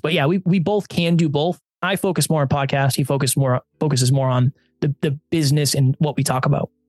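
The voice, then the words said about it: Radio voice. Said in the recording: “Have you been told that you have a radio voice? ... Yes, I have been told that.”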